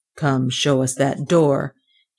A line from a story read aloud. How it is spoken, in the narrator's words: he said gruffly